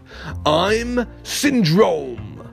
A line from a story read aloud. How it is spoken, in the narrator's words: cried the villain